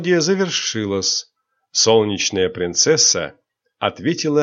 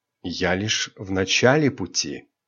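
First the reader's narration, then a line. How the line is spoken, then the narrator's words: Soft. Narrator (Russian): мягко произнесла Айрин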